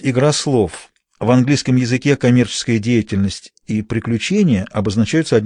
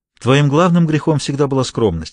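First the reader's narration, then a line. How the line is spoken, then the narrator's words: Sigh. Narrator (Russian): вздохнул Томми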